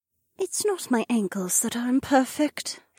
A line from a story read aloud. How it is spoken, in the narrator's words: Shay said in a small voice